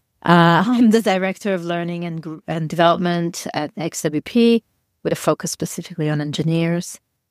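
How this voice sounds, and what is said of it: Strong Italian accent. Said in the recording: “As you can tell from my accent, I'm extremely Italian.”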